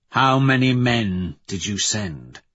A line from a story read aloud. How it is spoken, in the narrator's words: I ask coldly